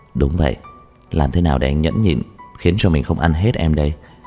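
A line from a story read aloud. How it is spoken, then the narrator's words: Laughing softly. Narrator (Vietnamese): nhẹ nhàng ôm lấy cô cười nói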